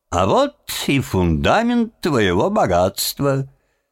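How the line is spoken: Merry laughing. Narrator (Russian): и весело рассмеялся смехом Тима

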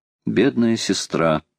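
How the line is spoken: Sad. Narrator (Russian): грустно сказал Роберт

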